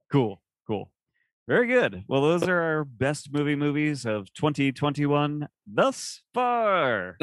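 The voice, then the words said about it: Big announcer-style radio voice. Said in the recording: “Gave it my big radio voice there.”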